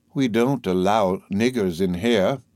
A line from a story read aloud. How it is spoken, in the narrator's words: a good deacon who told me in a pious tone